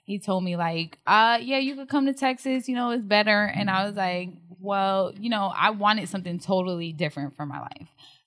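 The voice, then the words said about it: New Jersey accent. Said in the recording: “I'm from New Jersey, if you can't tell by my Jersey accent”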